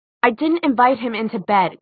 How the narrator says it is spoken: Clary snapped

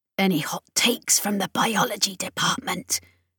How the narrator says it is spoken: Chris hissed

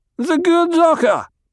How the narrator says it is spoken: Idaho shouted

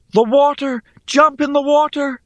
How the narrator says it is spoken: Rhea cried out

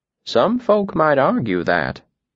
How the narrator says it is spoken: she said gently

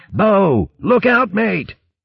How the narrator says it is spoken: shouted

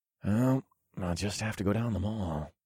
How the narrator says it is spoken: I muttered

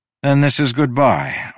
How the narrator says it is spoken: I sighed

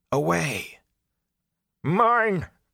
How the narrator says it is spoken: Agnar cried

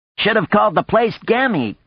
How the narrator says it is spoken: Coyote said to Hiroko, laughing harshly

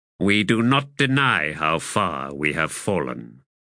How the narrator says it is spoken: said Kalturmano

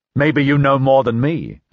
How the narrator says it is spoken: I said

